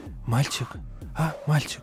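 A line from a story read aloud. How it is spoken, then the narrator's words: Whispered call. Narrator (Russian): шепотом позвала она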